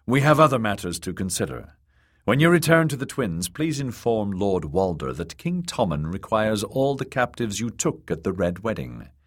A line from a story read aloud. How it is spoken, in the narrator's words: he said in a dry tone